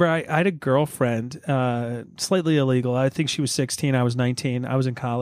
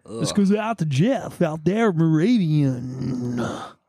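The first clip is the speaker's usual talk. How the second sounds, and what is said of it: Radio DJ host voice. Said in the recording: “Love the DJ host accent.”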